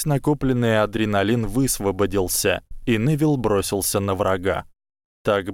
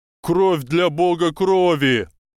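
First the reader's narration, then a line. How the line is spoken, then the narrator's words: Screamed. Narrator (Russian): завопил Невилл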